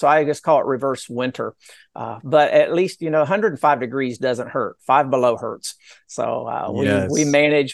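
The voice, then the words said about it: Slight Southern Appalachian accent. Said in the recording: “I hear a little bit of an accent in there, a little bit of something ... there's a little bit of that Appalachian accent ... I had to develop a little bit of a Southern accent”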